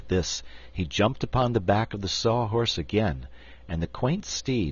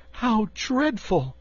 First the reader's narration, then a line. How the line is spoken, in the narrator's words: cried Dorothy